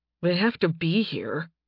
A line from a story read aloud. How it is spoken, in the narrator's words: Nathan muttered